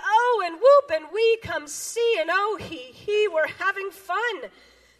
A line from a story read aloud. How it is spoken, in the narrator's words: they cried